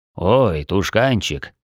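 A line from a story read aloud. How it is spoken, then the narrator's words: Quiet lament. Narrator (Russian): тихо посетовал Сет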